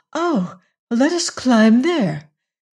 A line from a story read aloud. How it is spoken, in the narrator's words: cried Bess